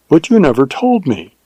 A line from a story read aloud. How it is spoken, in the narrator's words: exclaimed with wonder and reproach